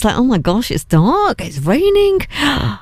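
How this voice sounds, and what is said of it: Put-on Birmingham accent. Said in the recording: “Did I just do that Birmingham accent?”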